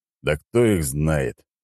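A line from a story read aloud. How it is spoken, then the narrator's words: Displeased grumble. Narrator (Russian): недовольно пробурчал Леонид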